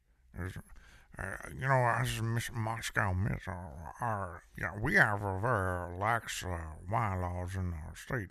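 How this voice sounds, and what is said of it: Mumbling imitation of another person's voice. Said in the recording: “I'm mumbling... That's my Moscow Mitch.”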